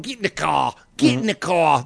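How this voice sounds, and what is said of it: Put-on Australian accent. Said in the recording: “that's the Australian accent ... That's that Australian accent ... it's not even close to British”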